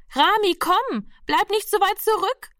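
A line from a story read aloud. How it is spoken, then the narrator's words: Sister calling again. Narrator (German): rief die Schwester schon wieder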